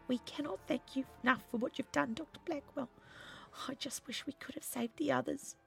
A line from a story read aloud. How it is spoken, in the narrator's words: said Gwyneth weakly, who was looking a little pale from blood loss